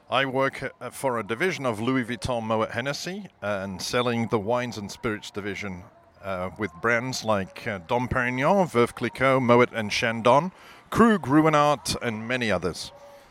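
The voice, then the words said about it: English accent. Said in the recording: “I love your accent. ... I was born in England ... still sound this way”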